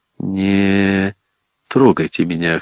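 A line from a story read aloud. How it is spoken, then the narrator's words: Hoarse mutter. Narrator (Russian): хрипло пробормотал я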